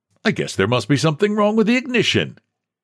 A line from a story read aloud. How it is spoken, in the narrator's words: he said cheerfully